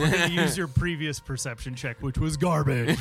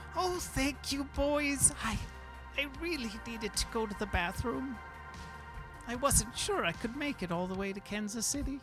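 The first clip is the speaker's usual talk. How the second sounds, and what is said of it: Old lady character voice. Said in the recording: “how's the old lady accent? Did I sell it?”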